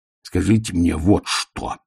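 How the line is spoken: Growl. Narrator (Russian): прорычал он

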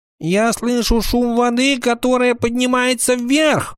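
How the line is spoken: Shout. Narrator (Russian): крикнул Тиарион

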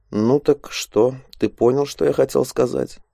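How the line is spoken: Quiet. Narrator (Russian): негромко произнес он

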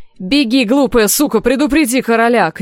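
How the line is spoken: Shout. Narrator (Russian): крикнул сир Клейтон

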